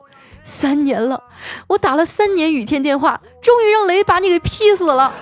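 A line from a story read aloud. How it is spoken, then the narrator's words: Wailing. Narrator (Chinese): 她嚎啕大哭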